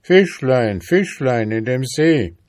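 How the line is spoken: Calling out. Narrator (German): als wollte er die Fische locken, rief er

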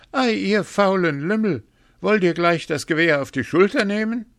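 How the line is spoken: Immediate shout. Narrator (German): schrie er sogleich

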